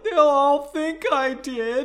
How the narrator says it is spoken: he wailed

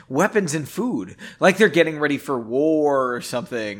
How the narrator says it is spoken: Henry said

